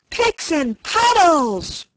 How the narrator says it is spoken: roared the king

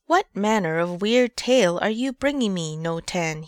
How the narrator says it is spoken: he cried

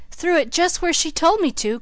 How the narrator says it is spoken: cried Billy

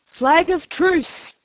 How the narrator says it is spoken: cried Silver

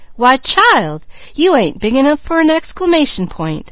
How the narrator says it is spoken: he cried

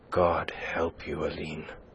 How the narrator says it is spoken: he groaned

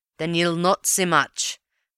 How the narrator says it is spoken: growled the detective

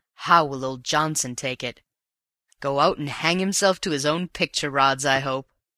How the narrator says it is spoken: chuckled

